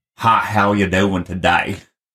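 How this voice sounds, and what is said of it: Exaggerated Texan accent. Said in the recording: “Texan is a whole other language ... I don't have much of an accent ... if you listen to my brother and my dad”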